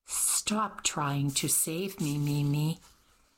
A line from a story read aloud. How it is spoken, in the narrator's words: she sighed